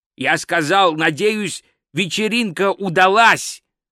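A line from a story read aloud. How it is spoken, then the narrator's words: Loud repetition. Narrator (Russian): громко повторил Гальдер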